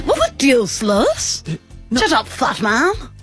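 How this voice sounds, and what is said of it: Cartoon character voice impression. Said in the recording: “I can do the Stewie accent. ... you're very good at it. ... You definitely don't undercommit.”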